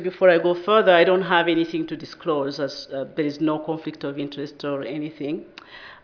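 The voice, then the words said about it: Thick Rwandan accent. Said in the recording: “I'm also from Rwanda ... if my accent is too thick for you”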